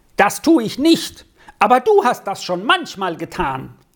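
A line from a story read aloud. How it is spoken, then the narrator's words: Tearful, emboldened shout. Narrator (German): stieg dem Sami das Blut in die Wangen und das Wasser in die Augen, und mutiger als er sonst dem Stöffi gegenüber war, rief er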